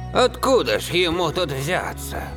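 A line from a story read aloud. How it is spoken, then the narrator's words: Mutter. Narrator (Russian): пробормотал Виталий Олегович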